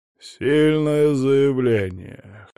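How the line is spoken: Old man's wry snort. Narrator (Russian): хмыкнул патриарх

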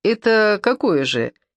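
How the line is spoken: Giggle. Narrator (Russian): хихикнула Симочка

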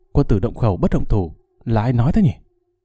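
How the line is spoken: Angry hushed snap. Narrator (Vietnamese): tức giận quát khẽ

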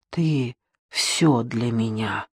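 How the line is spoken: Quiet. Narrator (Russian): тихо произнесла

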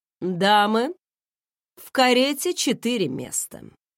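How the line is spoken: Even, calm announcement. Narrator (Russian): ровным голосом объявил

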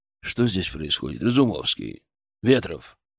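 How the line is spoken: Quiet, weighty voice. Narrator (Russian): Его голос прозвучал тихо, но очень весомо

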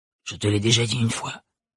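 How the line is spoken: Whispered. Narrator (French): chuchota-t-elle

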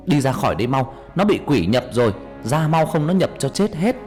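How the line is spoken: Loud shout. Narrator (Vietnamese): ông thầy hét lớn

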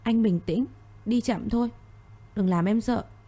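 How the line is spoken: Trembling voice. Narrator (Vietnamese): Cô giọng run rẩy

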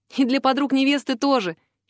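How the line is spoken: Giggle. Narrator (Russian): хихикнула

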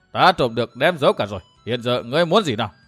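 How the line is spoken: Loud laughing reply. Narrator (Vietnamese): Thất Sắt La Sắt cười to đáp

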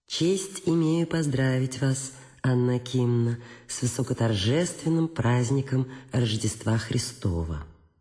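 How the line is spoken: Pleasant honeyed voice. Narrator (Russian): он сказал своим приятным медовым голосом

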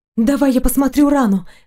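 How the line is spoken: Cautious exclamation. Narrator (Russian): воскликнула осторожно

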